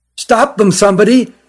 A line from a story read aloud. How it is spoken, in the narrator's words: cried the one who found them